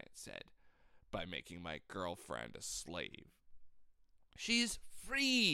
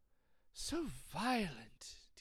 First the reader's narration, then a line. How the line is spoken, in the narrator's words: Teacher said, sighing